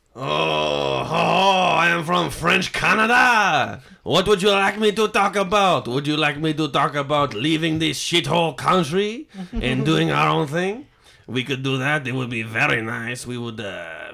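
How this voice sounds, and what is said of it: Put-on French Canadian accent. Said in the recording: “Can you do French Canadian? ... this is gonna be really bad.”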